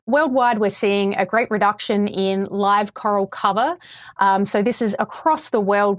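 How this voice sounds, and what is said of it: Australian accent. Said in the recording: “I can hear your Australian accent.”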